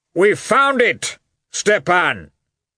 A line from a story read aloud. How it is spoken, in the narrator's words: he shouted